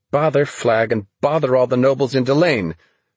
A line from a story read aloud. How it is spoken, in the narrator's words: she cried with such force